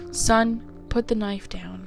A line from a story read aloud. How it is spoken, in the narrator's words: said the officer